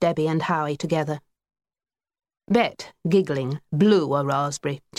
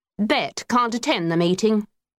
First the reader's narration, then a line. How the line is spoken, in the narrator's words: said sternly